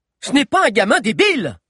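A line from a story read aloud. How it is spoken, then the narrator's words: Scream. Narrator (French): hurla Solario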